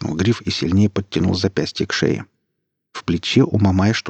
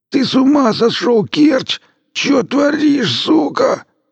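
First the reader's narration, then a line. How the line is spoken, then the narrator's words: Hoarse wheeze. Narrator (Russian): сипел Мамай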